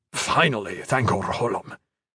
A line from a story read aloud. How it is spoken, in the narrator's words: Iron Fist muttered